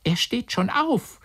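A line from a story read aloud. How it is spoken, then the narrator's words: Call from outside door. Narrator (German): rief es sofort draußen vor der Tür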